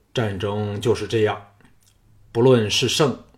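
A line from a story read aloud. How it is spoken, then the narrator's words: Deep, grave voice. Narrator (Chinese): 藤毅沉声说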